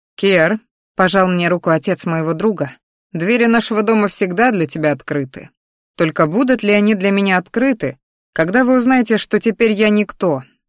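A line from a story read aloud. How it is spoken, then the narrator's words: Strained scoff. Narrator (Russian): Хмыкнул, едва держа лицо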